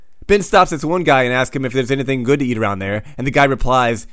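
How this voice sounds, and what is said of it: Usual voice. Nothing is said of it.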